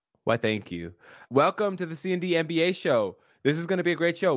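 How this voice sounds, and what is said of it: Exaggerated podcast host voice. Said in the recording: “This right now, this is a character voice. This is me doing the character of podcast host.”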